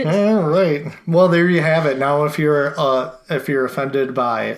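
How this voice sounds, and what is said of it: Usual voice. Nothing is said of it.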